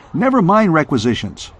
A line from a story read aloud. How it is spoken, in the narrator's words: Rip snapped